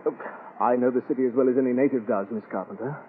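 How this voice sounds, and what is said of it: British accent. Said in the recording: “Are you British? ... Your accent”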